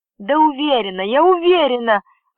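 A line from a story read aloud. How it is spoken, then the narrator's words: Exclaimed. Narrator (Russian): воскликнула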